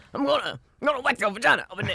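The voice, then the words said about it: Poor impression of an old man. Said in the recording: “That's her impersonation of an old black man, which is terrible.”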